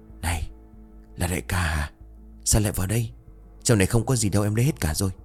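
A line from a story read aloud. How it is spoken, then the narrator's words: Softly asked. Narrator (Vietnamese): khẽ hỏi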